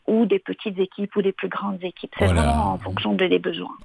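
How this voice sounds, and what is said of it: Belgian French accent. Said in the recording (French): “vous l'entendez à l'accent, je suis pas née ici non plus, là, je suis née en Belgique”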